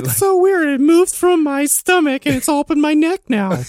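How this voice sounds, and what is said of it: Old lady voice. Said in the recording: “That's an old lady voice.”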